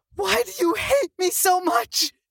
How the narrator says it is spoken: She screeched

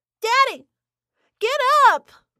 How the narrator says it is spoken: My stomach churned, and I leaped into the round pen screaming

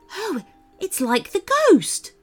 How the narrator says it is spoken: gasped Paxton

